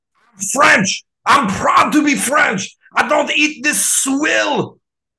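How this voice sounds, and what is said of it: Put-on French accent. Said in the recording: “Dinklage's French accent”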